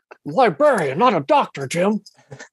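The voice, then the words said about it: Impression of a TV character's voice. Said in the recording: “I can't do a good bone impression ... It was a good, that was a pretty good bones, actually. That was pretty good bones.”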